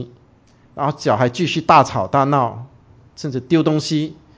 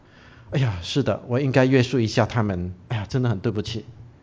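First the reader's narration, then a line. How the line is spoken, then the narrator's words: Soft reply. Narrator (Chinese): 好像回过神来的样子，然后轻声地回答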